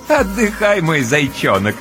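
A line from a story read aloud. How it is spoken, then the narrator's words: Playful, laughing. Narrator (Russian): С игривым хохотком разрешает Ночка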